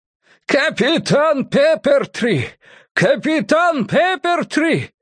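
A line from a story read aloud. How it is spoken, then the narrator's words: Yelling over howling wind. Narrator (Russian): Изо всех сил завопил Феннинг, хотя его проповеднический голос не шел ни в какое сравнение с завыванием ветра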